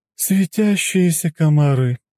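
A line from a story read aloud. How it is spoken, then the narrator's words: Dryad's sigh. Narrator (Russian): вздохнула Дриада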